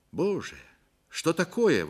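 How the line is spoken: Exclamation. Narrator (Russian): воскликнул он

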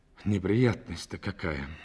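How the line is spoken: Sighing. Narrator (Russian): вздохнул он

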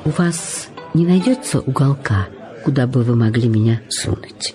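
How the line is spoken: Uncertain. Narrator (Russian): неуверенно произнесла Джулия

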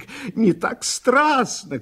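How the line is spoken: Shouting while crying with laughter. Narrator (Russian): кричал Шелестов, плача от смеха

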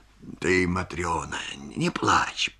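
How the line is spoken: Muttering. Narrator (Russian): бормочет он

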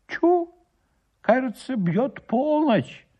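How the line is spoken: Exclaimed. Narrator (Russian): воскликнул староста

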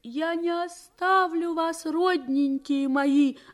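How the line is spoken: Sobbing. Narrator (Russian): зарыдала Евгения Алексеевна

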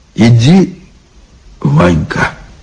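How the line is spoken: Quiet. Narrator (Russian): тихо сказал Илья

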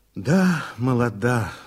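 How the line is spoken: Sigh. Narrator (Russian): вздохнул Никитин

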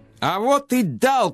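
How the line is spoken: Shout from corridor. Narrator (Russian): крикнул он из коридора

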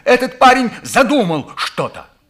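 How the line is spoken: Shouted. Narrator (Russian): выкрикнул

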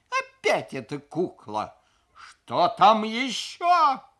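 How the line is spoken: Exasperated howl. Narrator (Russian): взвыл я

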